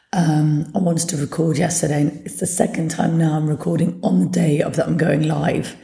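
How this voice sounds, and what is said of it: Hoarse, partly lost voice. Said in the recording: “as you can hear, I've lost my voice a little bit”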